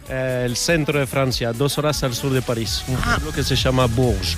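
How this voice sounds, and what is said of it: Spanish with a non-native accent. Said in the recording (Spanish): “por tu acento yo diría que el día que ganó España el Mundial tú no estabas muy contento ... te falla totalmente el acento”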